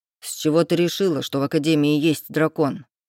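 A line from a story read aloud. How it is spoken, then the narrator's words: Irritated question. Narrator (Russian): спросил Рейв раздраженно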